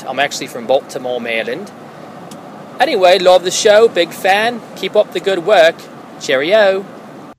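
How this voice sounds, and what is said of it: Convincing fake British accent. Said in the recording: “my fake British accent ... I've been working on it ... thank you for that fake British accent ... I thought you were British ... I was fooled”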